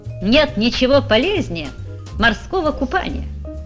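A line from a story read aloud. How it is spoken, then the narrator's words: Cheerful announcement. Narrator (Russian): весело сообщил он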